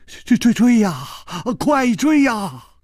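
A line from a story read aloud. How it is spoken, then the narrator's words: Terrified trembling voice. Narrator (Chinese): 金半花早已经是面无人色了，他颤声说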